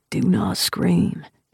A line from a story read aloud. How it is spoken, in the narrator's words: he whispers